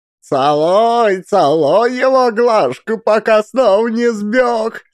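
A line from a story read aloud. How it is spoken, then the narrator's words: Old women laughing. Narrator (Russian): Смеялись старухи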